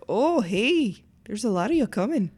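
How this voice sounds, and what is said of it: Put-on Canadian accent. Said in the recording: “my Canadian impersonation ... That was good ... That was really good”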